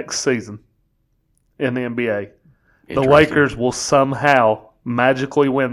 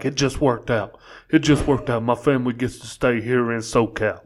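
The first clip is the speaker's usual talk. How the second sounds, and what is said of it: LeBron James impression. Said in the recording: “not terrible LeBron impersonation”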